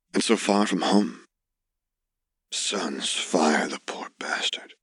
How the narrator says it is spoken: Uncle Owen muttered

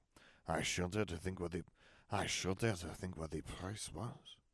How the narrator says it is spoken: Papa muttered

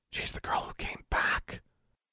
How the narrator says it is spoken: one girl whispered

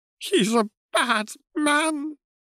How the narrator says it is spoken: she whimpered

